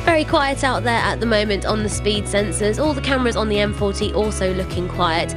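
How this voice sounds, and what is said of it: Nasal, congested voice with a cold. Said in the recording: “Have you got a little bit of a cold there? ... You're sounding a little bit nasally.”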